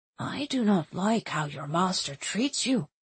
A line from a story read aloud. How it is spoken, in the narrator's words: he said quietly